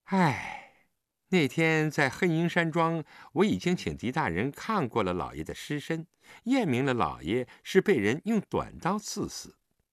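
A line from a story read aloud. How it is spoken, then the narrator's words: Long sigh. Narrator (Chinese): 冯丹青悠悠地叹了口气，道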